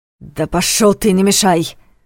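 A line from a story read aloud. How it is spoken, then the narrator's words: Barked. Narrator (Russian): рявкнул Войтых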